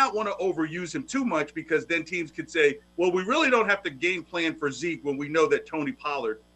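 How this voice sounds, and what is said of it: Usual voice. Nothing is said of it.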